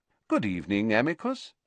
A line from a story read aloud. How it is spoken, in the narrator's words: said Dumbledore calmly, as though welcoming the man to a tea party